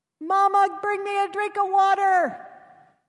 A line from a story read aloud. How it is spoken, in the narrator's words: Like babies, they complained and cried